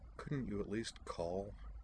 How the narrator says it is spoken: sighed and muttered to the world in general

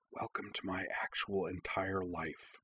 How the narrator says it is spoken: Iki whispering

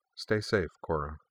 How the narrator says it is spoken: Jinora murmured

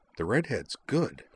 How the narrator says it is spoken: Nall murmured

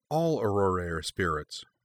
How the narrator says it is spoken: Cora replied

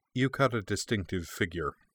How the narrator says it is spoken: the other man said dryly

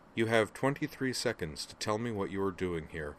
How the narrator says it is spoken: T'Pol replied flatly

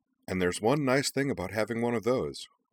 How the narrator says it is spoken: said Iki cheerfully

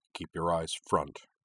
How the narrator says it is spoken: Sosuke murmured

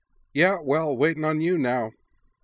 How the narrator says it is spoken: she said cheerfully

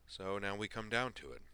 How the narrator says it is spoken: Griffin said

